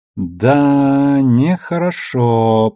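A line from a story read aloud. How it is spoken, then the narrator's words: Drawling. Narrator (Russian): протянул Алекс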